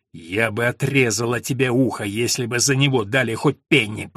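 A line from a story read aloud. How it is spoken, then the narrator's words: Hissed. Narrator (Russian): прошипела Алина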